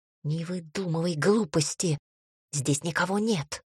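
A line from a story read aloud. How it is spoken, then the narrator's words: Angry hiss. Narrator (Russian): зло зашипело Амирану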